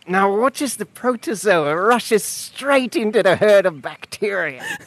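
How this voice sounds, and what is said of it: Imitates a nature documentary narrator. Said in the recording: “Is that your David Attenborough impression? ... I'm trying here.”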